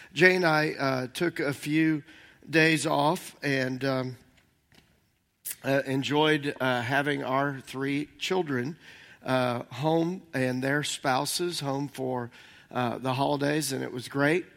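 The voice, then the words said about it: Slightly hoarse voice. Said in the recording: “If I sound a little bit hoarse, I've got a cough drop in.”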